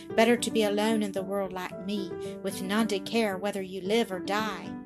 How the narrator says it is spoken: she sighed

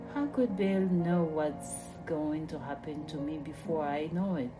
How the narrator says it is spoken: sighed

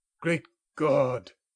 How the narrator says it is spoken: exclaimed the old man

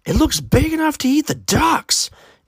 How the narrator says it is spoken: Aiden's aunt exclaimed

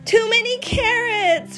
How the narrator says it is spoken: cried Beaver

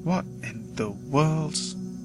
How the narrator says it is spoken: I mutter

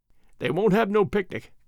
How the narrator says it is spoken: went on Alfred, with a little chuckle

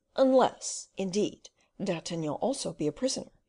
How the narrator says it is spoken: replied Porthos

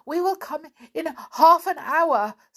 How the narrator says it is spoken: stammered Binky

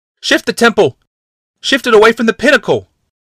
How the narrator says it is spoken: Someone shouted

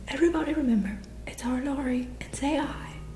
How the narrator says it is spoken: cried Snodgrass excitedly

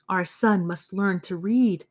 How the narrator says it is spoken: he said frantically

